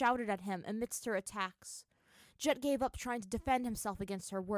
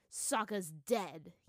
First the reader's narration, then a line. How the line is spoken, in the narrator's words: he said coldly